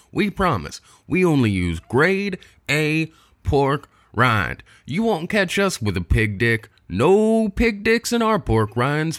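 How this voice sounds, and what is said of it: Put-on accent in mock advert. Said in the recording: “I seem to be losing my accent”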